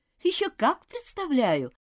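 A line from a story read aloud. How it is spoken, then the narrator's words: Laughing. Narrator (Russian): рассмеялась Элизабет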